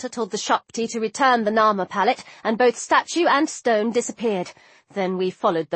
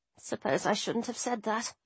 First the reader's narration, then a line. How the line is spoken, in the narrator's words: I muttered